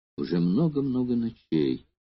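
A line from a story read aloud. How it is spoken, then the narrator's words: Quiet, trembling girl. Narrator (Russian): произнесла тихо девушка, дрожавшая словно лист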